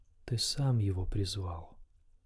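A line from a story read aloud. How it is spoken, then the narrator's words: Soft, sad rustle. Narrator (Russian): прошелестела она тихо и печально, как морская раковина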